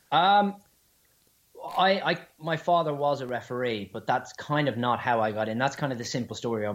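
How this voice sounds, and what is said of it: Strong Dublin Irish accent. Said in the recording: “you've got that strong ... Dublin, obviously. Except Dublin accent”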